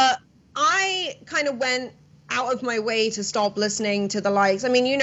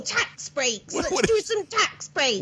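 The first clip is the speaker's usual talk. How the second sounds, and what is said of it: Impression of Liz Truss. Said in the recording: “do an amazing impression of the new British Prime Minister, Liz Truss”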